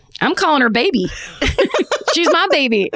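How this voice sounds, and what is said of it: Put-on, not quite Texan accent. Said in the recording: “Suddenly I have a Texan accent for no reason. And also it's not really Texan.”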